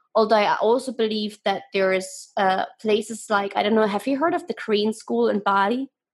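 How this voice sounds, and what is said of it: Non-native English accent. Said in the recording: “That's my accent. ... This word is always the most hilarious that people understand. Korean as the color.”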